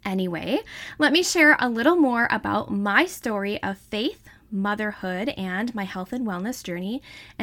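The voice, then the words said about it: Wisconsin accent. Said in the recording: “Some people say that I have an accent, ... I guess I speak Wisconsinite”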